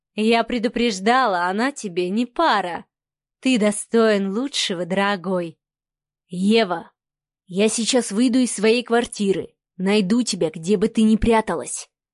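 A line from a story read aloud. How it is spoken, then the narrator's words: Deceptively soft. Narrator (Russian): Обманчиво мягко начал говорить Адмиралов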